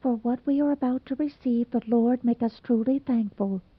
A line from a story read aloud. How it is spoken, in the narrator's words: Cyrus, blushing beet red, murmured almost inaudibly